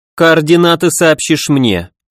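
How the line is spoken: Commanding tone, female. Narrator (Russian): приказным тоном велела Роза

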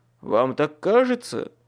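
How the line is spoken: Snorting. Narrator (Russian): Фыркнул он

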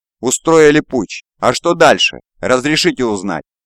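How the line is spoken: Calm voice. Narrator (Russian): Он ответил Гамову таким же спокойным голосом

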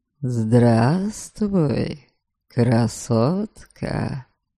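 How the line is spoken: Sweet purr. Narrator (Russian): Вдруг сладко промурлыкал кто-то

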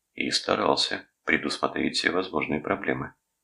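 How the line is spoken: Quiet speech. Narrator (Russian): тихо произнес Рудольф

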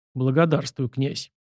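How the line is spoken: Quiet. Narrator (Russian): Атаман тихо сказал

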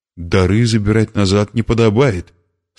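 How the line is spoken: Plain. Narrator (Russian): сказал он

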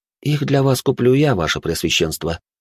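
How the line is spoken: Calm. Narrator (Russian): спокойно ответил я

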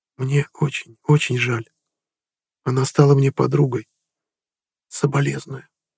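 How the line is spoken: Quiet. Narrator (Russian): тихо сказала

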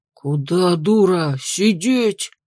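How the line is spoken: Hissed. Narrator (Russian): прошипел он

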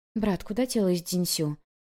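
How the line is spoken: Quiet question. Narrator (Russian): Вэйнло тихо спросила

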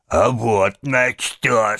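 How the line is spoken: Deep bass voice. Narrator (Russian): сказал он басом

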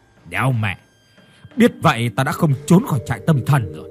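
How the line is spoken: Bitter cursing. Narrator (Vietnamese): hắn hằn học chửi

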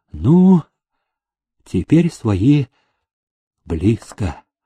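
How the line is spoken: Deep sigh. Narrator (Russian): полной грудью вздохнул Грязнов

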